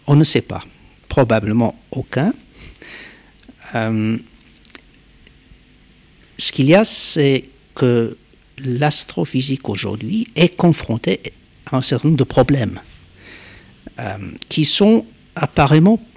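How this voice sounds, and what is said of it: Polish accent in French. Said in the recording (French): “D'origine polonaise, c'est pour expliquer l'accent.”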